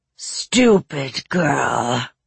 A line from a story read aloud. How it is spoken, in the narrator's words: said a voice that rumbled like an avalanche off the mountain